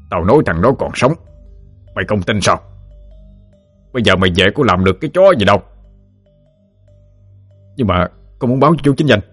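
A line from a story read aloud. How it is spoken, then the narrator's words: Snapping sharply. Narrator (Vietnamese): Quan Lửa gơm hơi rồi gắt tiếp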